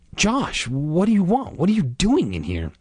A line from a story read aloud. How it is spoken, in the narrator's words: I gasped